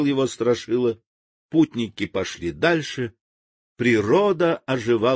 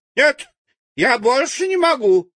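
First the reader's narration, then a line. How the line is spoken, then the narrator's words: Shouted. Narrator (Russian): закричала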